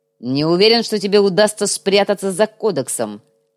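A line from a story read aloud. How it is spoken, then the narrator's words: Scoffing snort. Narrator (Russian): хмыкнул Делаэрт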